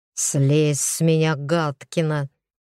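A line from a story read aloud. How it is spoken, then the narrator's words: Pained hiss. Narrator (Russian): прошипел он, болезненно скривившись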